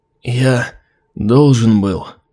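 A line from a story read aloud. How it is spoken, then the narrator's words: Hoarse rasp. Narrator (Russian): прохрипел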